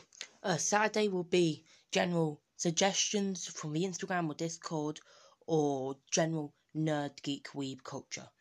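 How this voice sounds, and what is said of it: Rough, hoarse voice. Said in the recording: “my voice is a bit shot. Got a bit of a cold coming. That's why I sound like I'm drowning in a pool of cheese graters.”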